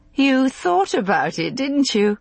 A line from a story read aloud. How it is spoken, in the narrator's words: She said, laughing